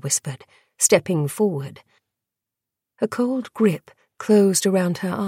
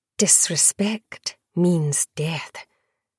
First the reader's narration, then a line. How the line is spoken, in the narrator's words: Chiara murmured